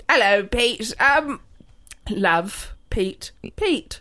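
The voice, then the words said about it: Poor attempt at English accent. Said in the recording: “I literally can't remember what an English person sounds like. ... whenever I go to do an accent, it's like the floor drops out of my brain. ... This is me trying my hardest. ... It's actually upsetting.”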